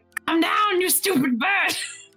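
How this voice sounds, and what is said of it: Badly done put-on accent. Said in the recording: “Whose accent are you butchering right now?”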